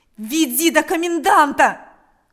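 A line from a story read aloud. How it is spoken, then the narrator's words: Repeated shouting. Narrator (Russian): кричал Степан снова и снова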